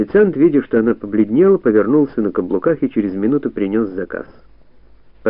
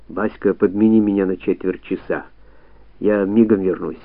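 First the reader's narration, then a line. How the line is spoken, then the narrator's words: Whisper. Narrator (Russian): прошептал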